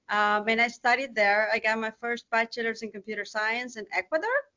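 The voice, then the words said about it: South American Spanish-accented English. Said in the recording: “as you can tell, I have an accent. So I'm not from the United States. I was born in South America”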